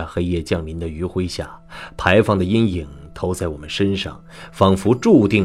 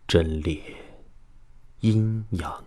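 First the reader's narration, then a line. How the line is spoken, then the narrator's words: Soft reading aloud. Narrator (Chinese): 我轻声把这四个字念了出来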